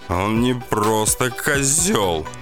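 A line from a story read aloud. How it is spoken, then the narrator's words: Sobbing. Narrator (Russian): всхлипывал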